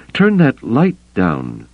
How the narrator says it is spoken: she gasped

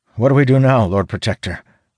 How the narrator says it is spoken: asks, voice quavering

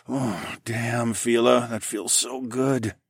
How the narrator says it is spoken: I groaned

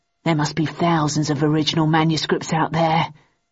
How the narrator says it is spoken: murmured Shit

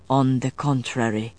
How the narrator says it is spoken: he said softly

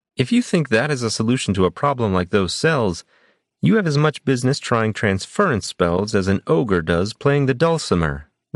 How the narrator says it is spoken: Rashan snapped

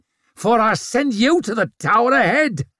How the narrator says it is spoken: she snarled back at him

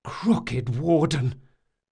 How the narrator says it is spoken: Locke gasped

